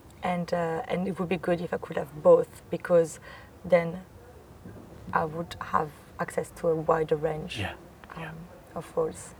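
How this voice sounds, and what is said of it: Strong French accent. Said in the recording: “my accent is still very French”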